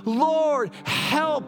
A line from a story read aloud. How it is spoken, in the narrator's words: They cried in their trouble